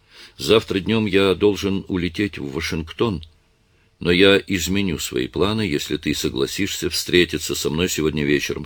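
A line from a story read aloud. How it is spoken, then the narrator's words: Plain. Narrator (Russian): сказал Адам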